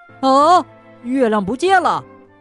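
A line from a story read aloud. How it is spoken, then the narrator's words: Startled cry. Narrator (Chinese): 松鼠惊叫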